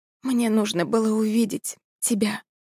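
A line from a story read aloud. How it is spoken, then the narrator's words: Whisper. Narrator (Russian): прошептала Алексис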